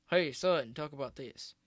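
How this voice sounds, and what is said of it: Poor imitation of an older man's voice. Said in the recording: “terrible impression”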